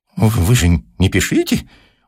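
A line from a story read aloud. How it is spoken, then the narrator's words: Desperate defeated wheeze. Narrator (Russian): Уже сдаваясь и чувствуя, что он в руках молодого человека, в отчаянии просипел Персиков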